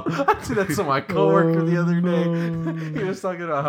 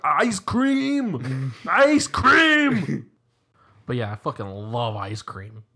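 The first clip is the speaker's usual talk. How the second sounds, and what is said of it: Imitates another person's voice. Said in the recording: “You have a really good Arnold impression.”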